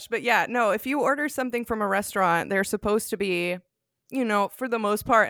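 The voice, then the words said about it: Southern American accent. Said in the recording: “I'm so American and I'm Southern and I'm working with an accent here”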